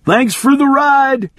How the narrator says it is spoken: he yelled

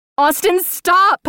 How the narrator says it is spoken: I screamed again, desperate to connect with him, to snap him out of this before it was too late

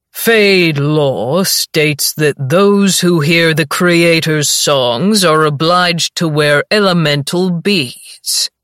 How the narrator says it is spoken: he says, his voice a conjuring drawl that echoes through the space

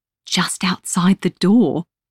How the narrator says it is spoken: she whispers excitedly

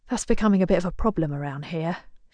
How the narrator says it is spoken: she mutters under her breath

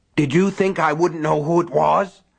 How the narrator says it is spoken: Buster Keaton was grunting as he dragged Norris

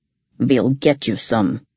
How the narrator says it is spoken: he told me gruffly

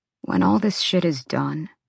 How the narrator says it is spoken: Rune said hoarsely

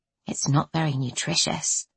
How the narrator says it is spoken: ventured quietly

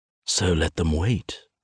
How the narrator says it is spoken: I whisper in her ear

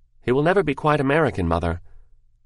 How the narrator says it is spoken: Mary answered quickly

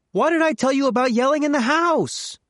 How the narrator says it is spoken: Carmen shouting

